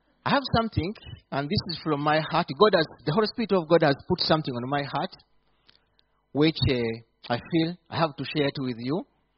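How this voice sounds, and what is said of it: Speaks with a noticeable accent. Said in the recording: “my accent be easy unto you”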